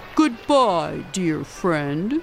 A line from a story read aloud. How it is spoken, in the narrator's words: rumbled Boris